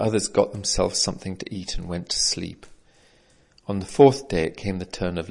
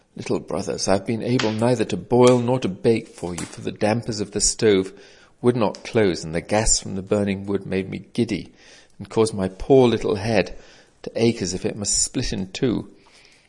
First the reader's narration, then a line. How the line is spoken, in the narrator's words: He sat groaning he said